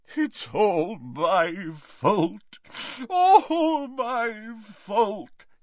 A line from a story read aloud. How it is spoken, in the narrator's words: he sobbed